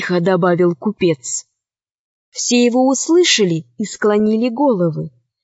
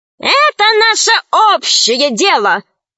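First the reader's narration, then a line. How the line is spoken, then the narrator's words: Exclaiming. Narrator (Russian): воскликнула хромая ящерица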